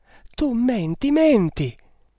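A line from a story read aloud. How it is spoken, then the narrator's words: Unhappy girl's exclamation. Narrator (Italian): esclamò la sventurata ragazza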